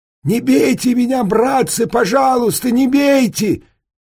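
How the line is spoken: Shouting. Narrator (Russian): Тогда я закричал

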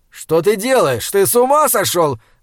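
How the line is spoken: Shouting. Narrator (Russian): закричал орфист

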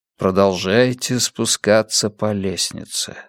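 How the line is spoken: Quiet. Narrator (Russian): сказал я тихо

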